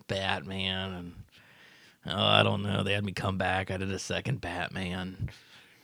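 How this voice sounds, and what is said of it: Imitates another person's voice. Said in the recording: “your Michael Keaton impression. That very much is, very much sounds like him.”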